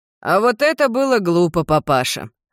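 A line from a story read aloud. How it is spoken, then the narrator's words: Smirking snort. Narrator (Russian): хмыкнул Прокопио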